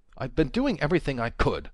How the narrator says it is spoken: Walter snapped

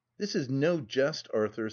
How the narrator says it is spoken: said I seriously, but as calmly as I could

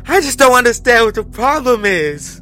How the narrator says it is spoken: tearfully, over and over again

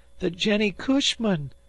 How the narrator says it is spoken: said Dan hysterically

